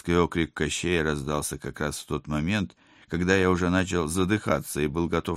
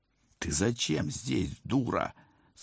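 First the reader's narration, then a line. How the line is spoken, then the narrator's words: Hiss through teeth. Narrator (Russian): сквозь зубы прошипел я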